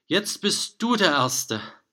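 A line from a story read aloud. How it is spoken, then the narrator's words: Called out. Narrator (German): rief den Drachen zu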